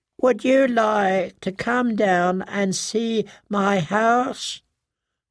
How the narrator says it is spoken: the pear-shaped man asked in that high, whiny voice

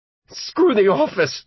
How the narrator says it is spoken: Buddy cried

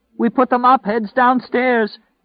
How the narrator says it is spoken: his mother cried out

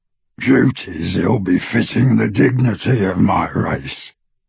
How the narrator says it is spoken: replied the goblin, his voice rougher and less human as he said it

